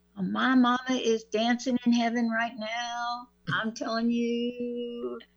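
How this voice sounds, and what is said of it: Put-on Southern drawl. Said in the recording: “You see how easy it is for me to get that southern draw? ... I'm channeling my stepmama.”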